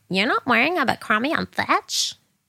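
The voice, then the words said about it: Imitated American accent. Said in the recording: “That was quite a good accent. That was a good impression.”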